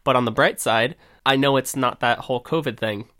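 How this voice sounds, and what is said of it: Congested, stuffy nasal voice. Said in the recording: “I have a little bit of a cold right now that I'm getting over. I sound a little funky and my nose doesn't really like me.”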